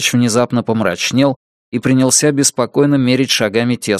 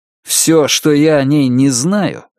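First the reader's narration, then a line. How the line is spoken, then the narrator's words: Sarcastic remark. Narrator (Russian): язвительно заметил Джек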